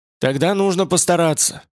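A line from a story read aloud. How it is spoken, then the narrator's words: Cheerful, curt retort. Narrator (Russian): отрезала Азазель весело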